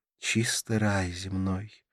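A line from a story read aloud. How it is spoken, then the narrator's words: Sighed. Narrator (Russian): вздохнула Карла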